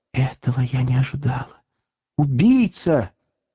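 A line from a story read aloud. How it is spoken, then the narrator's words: Shaken whisper. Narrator (Russian): содрогнулась и прошептала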